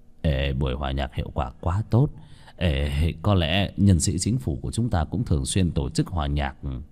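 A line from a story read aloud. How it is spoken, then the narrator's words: Pensive muttering. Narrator (Vietnamese): rơi vào trầm tư lẩm bẩm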